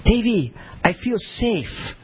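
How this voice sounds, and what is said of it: Impression of his Chinese wife. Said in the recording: “I'll do an impression of her”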